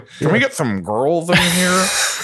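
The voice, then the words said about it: Imitates another person's voice. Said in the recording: “that's my Ben Mendelsohn impression, too.”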